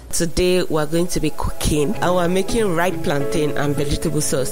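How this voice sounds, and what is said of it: African accent. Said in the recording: “You'll hear an African accent”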